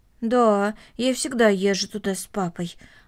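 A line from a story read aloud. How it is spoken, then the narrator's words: Plain. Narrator (Russian): ответила Корнели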